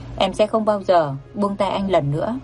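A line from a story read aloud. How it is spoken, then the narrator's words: Soft emotional speech. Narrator (Vietnamese): run rẩy vì xúc động mà nói khẽ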